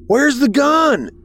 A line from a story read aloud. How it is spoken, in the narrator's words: I shouted